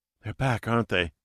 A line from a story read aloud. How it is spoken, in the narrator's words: she said, her voice hoarse from sleep